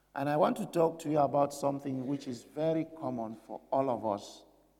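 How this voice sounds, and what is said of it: Unwell, weak-sounding voice. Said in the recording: “You can hear from my voice, I'm not very well this morning”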